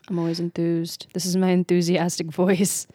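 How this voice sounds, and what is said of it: Flat monotone delivery. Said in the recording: “my enthusiastic voice is monotone”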